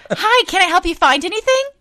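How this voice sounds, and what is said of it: Fake customer service voice. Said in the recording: “who is that fake ass bitch every time I do my customer service voice?”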